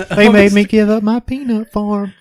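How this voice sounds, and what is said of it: Jimmy Carter impression. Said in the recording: “a certain president ... you can do the voice better ... Jimmy Carter”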